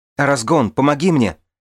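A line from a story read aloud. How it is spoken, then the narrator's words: Shouting back. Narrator (Russian): Он закричал в ответ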